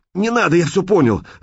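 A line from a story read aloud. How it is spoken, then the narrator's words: Shouting, sobbing. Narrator (Russian): закричал Шкет и заплакал навзрыд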